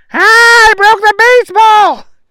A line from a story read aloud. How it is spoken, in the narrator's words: Booger yelped